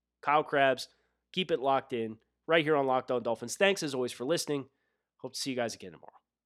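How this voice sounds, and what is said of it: Northeastern US accent. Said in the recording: “this Northeastern accent”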